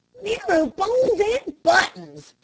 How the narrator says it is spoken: shouted one of the men

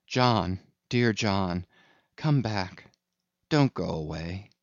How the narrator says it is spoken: called softly

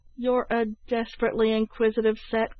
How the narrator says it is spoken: cried Tom Collins, laughing

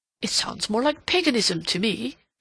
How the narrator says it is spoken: Rodney groaned

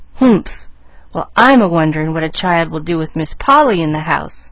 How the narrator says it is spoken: snapped Nancy

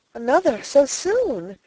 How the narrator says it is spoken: exclaimed, her eyes filled with delight

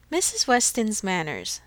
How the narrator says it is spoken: said Emma

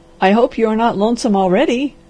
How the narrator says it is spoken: laughed the doctor

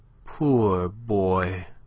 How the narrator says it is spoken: she said tenderly

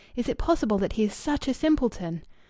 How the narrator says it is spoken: said Louis eagerly

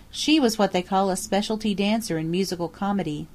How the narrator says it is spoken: Lydia answered

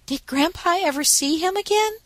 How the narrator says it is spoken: asked Daisy eagerly

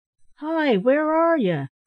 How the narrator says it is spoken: cried

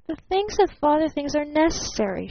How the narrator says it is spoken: she exclaimed softly

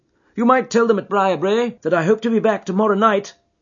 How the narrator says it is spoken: cried Phelps

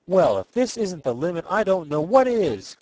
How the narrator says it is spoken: cried Ned Newton

